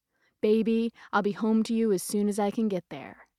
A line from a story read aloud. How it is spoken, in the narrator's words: it said